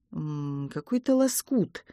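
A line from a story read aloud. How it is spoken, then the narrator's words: Uncertain voice. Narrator (Russian): наконец проговорил Борис, но голос его звучал неуверенно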